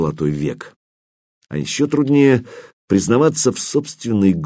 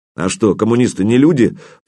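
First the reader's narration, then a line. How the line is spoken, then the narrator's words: Reluctant snapping retort. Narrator (Russian): против воли огрызнулся Зорин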